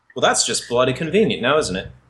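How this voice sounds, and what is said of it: Put-on Australian accent. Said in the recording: “What part of Australia is Avalon from? ... my share of terrible accents”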